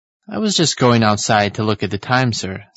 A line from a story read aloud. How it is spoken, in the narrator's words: said Mr